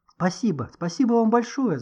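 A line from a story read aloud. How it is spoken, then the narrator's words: Babbling. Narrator (Russian): залепетал Никита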